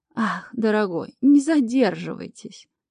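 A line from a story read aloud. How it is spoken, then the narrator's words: Languid sigh. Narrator (Russian): томно вздохнула мисс Дин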